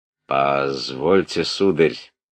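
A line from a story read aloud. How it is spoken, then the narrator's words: Dry, unpleasant. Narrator (Russian): Сухо неприятно обратился князь Андрей по-русски к князю Ипполиту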